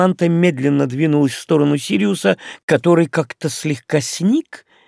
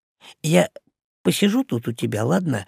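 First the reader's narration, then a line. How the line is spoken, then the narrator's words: Whispered question. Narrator (Russian): шепотом спросил Крис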